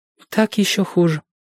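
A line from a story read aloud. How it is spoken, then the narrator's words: Sad. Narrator (Russian): печально сказала Джоанна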